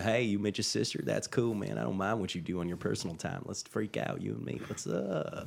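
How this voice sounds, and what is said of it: Put-on Southern country accent. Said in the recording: “I gotta hear your country accent though... I gotta hear the accent you would use for a Memphis, Tennessee kind of thing... Yeah, that's just Matthew McConaughey.”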